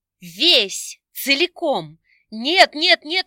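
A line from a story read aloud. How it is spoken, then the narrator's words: Inner exclamation. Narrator (Russian): мысленно воскликнула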